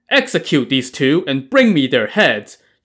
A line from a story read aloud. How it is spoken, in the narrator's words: Chao Gai barked